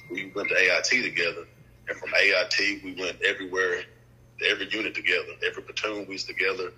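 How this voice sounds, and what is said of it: Thick Tennessee Southern accent. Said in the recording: “that accent real thick ... I'm from Jackson, Tennessee”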